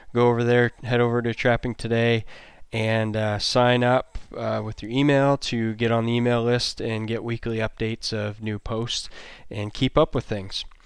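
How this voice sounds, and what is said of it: Sick, congested-sounding voice. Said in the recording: “You might notice my voice sounds a little different... I have the longest cold I've ever had in my life, going on 3 weeks now”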